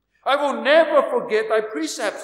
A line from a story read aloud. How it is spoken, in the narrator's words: the psalmist cried